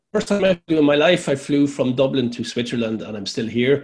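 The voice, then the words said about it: Irish accent from Laois. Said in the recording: “you're from Laois, of course, you can hear by the accent.”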